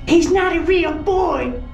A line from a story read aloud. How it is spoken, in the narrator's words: Macy shrieked through the thick metal